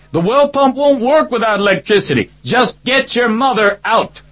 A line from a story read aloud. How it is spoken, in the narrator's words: shouted